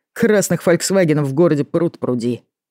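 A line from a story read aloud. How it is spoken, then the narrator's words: Scoffing snort. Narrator (Russian): фыркнул Артём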